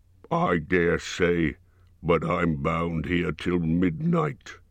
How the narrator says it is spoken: grumbled the fat dwarf

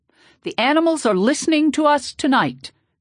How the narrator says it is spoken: Tata Kuvadundu yelled out and kind of started singing with his eyes closed

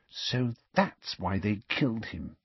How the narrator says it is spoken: she said quietly

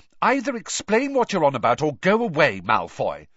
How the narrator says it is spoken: said Hermione testily

